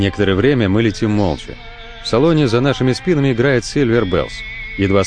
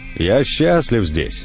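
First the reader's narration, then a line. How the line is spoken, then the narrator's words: Plain. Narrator (Russian): говорит наконец Ирвин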